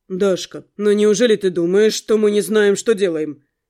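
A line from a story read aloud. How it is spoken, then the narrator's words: Deadly serious. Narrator (Russian): предельно серьезным тоном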